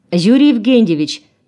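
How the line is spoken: Shouting. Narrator (Russian): крикнула она

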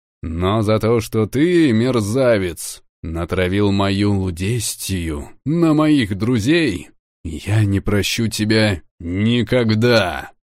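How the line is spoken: Growled. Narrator (Russian): прорычал я

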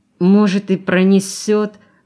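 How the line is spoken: Hopeful moan. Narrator (Russian): с надеждой простонал Валерка

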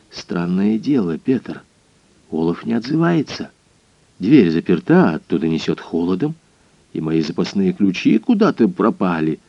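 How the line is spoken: Close whisper in ear. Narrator (Russian): Он наклонился к моему уху и прошептал

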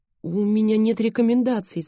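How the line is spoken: Babbling. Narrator (Russian): залепетала я

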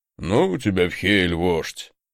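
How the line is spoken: Gruff mutter. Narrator (Russian): буркнул здоровяк

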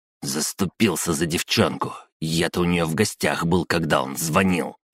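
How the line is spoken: Hiss. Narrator (Russian): прошипел Глиста

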